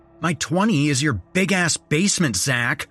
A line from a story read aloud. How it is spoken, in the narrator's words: I snapped